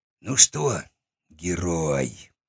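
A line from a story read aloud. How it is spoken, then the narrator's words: Drawling. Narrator (Russian): протянул он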